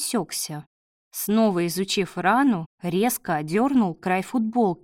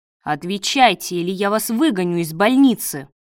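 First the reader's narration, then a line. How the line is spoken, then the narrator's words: Barked. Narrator (Russian): рявкнул Давид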